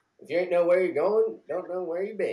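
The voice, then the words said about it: Impression of cartoon character Mater. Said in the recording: “give me your best... The name Mater, like Toe Mater without the toe ... My best impersonation?”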